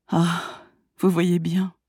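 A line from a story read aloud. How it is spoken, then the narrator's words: Melancholy reply. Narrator (French): répliqua-t-il d'une voix mélancolique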